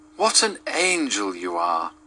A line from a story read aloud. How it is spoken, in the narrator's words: cried the young Duke